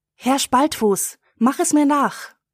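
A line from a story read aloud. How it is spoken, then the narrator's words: Girl calling out. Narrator (German): ruft das Mädchen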